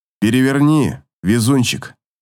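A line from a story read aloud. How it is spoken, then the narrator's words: Cold command. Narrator (Russian): холодно приказывает незнакомец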